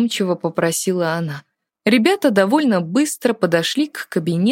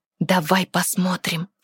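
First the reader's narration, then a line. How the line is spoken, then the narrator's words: Conspiratorial whisper. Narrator (Russian): заговорщически прошептала Диана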